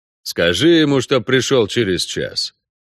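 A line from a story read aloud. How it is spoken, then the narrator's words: Muffled hopeless grumble. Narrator (Russian): пробурчал Геральт из-под одеяла, не особо, впрочем, надеясь на успех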